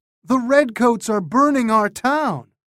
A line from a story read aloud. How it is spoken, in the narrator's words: they cried